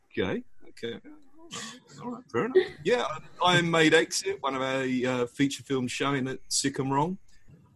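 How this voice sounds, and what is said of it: British accent. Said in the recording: “I'm from the UK, as you can probably hear.”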